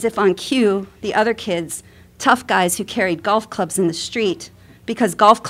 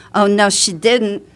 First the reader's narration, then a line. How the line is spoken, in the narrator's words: one kid in a thick Queens accent said